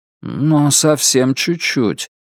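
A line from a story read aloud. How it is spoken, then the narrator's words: Sad inner voice. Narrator (Russian): грустно подсказал внутренний голос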